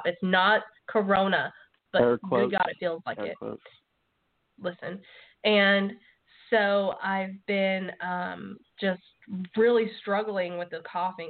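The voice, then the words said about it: Hoarse voice. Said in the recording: “I'm very hoarse tonight because of all the coughing and hacking”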